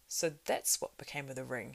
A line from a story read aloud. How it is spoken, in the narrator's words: cried